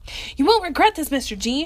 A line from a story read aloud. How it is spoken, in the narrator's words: Tony yelled